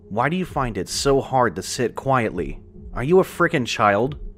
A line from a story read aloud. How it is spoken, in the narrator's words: he hissed at Joseph